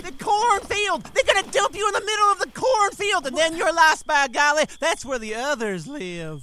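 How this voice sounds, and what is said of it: Yelling. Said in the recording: “Stop yelling.”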